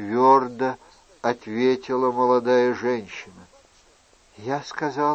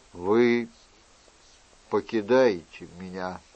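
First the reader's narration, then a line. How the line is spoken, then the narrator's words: Gloomy question. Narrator (Russian): мрачно спросил он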